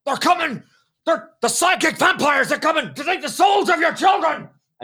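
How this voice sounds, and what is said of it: Shouty Alex Jones impression. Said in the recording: “I'll do an impression ... Maybe his first name is Alex and his last name is Jones”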